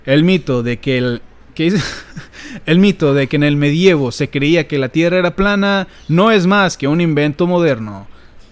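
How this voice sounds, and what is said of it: Reads in a narrator voice. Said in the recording (Spanish): “Voy a leerlo con voz de narrador”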